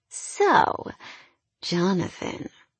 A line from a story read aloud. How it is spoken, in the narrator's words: Helen purred